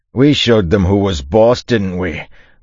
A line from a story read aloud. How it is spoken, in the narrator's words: Buko said, his voice triumphant